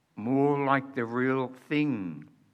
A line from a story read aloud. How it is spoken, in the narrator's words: said the Lord Diggory softly